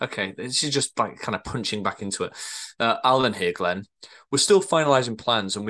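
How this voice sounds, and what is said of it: Usual voice. Nothing is said of it.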